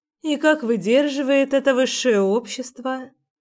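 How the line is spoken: Sighing question, mother. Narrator (Russian): вздохнув, поинтересовалась мама

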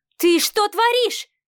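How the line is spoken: Shouting. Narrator (Russian): кричала Марианна

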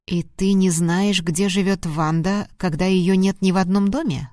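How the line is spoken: Plain. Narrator (Russian): спросил Грил

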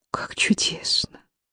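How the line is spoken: Whisper. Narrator (Russian): прошептала она

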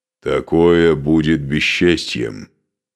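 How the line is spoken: Muffled, hollow. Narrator (Russian): глухо проговорил Скарпи

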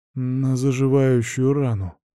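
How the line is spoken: Muttering. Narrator (Russian): бормочет философ

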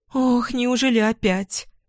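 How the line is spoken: Frightened girl. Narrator (Russian): Испуганно говорит девушка

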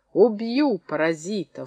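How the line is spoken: Hoarse wheezing. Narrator (Russian): хрипел Колесников

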